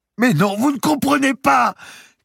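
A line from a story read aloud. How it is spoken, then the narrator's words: Shouting through sobs. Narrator (French): cria enfin Marie à travers ses sanglots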